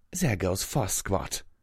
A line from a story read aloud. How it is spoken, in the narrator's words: she muttered